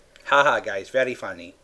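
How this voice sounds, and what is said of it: Imitates another person's voice. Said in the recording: “that your Jet Li impression from the trailer? ... That's my impression of Jet Li.”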